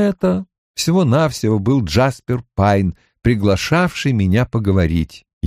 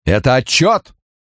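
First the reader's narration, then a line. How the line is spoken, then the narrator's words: Booming low voice. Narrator (Russian): Прогремел он под стать Бену Френкелю, но без грозовых раскатов в сильном низком голосе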